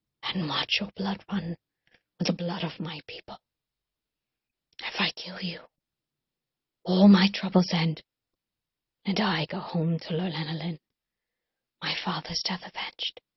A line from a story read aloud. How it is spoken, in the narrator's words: Colin whispered